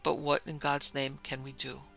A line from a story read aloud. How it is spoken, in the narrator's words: he could only mutter over and over again